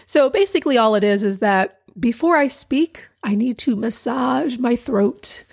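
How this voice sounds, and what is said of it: Hoarse voice. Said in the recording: “my voice sounds like I'm hoarse because it is. The muscles are not working properly.”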